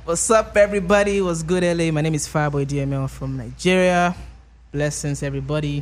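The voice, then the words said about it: Noticeable accent. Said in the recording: “you could just hear the accent in his voice”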